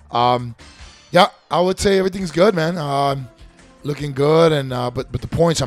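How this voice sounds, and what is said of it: Voice not fully recovered. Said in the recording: “Sorry about my voice. It's not 100% yet”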